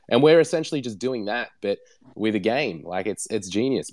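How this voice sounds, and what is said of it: Australian accent. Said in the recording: “It's great to hear an Aussie accent from the other side of the world.”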